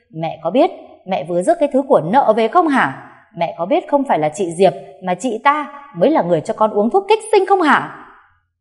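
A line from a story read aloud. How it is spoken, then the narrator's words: Screaming. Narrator (Vietnamese): Cô Bích gào lên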